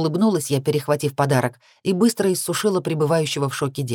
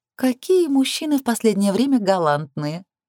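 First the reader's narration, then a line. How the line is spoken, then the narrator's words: Giggling. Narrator (Russian): хихикнула Лилит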